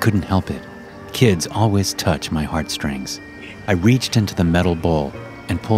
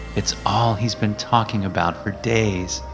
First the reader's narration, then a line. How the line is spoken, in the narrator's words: she sighed